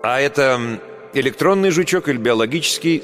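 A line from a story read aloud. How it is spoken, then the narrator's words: Plain. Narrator (Russian): спросил кто-то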